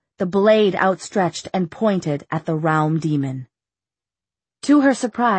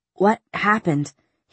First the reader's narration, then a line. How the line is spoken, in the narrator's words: he demanded between gasps for breath